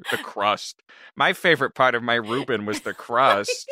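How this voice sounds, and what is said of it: Silly Peter Griffin-like voice. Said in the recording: “Not Peter Griffin. ... That wasn't Peter. That was just a silly voice. ... It was Peter.”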